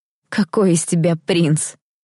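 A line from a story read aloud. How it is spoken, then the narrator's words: Ringing laugh. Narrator (Russian): рассмеялась я звонко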